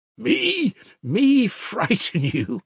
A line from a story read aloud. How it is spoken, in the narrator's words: cried Mitya